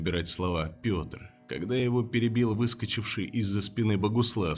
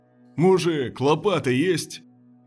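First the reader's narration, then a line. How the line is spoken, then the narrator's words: Cheerful shout. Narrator (Russian): весело выкрикнул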